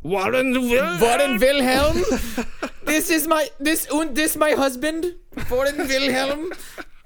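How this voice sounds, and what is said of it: Put-on German-style accent. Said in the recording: “I do accents now.”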